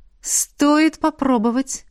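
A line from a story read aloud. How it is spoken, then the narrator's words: Exclaimed. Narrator (Russian): воскликнула ректор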